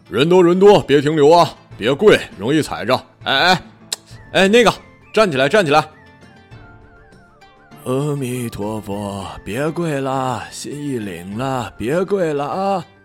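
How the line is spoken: Policeman shouting. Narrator (Chinese): 警察嘴里喊

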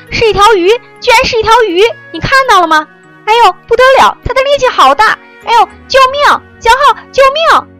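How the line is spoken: Frantic garbled yelling. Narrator (Chinese): 小双嘴里乱七八糟的嚷着

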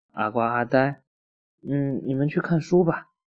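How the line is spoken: Sighing. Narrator (Chinese): 姑姑叹了一口气说

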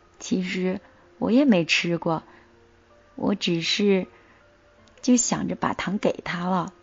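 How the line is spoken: Murmuring. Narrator (Chinese): 小白兔喃喃地说

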